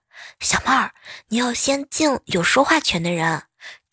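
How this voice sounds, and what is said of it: Quiet, whispered speech. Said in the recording (Chinese): “小声的说”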